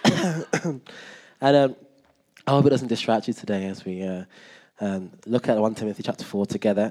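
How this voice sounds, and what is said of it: Congested, stuffy voice. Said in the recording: “I've got a cold”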